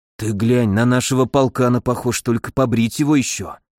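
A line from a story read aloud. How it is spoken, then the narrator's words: Whispered aside. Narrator (Russian): шепотом поделился Миша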